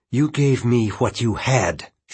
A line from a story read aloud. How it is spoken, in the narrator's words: she spat back